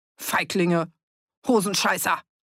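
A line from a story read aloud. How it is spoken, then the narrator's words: Bellowing insults after deserters. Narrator (German): brüllte Fritz den Abtrünnigen hinterher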